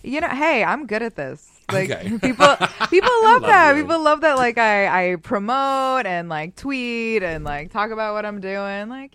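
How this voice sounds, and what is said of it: Boston accent. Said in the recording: “I just love her accent. She got that true Boston accent.”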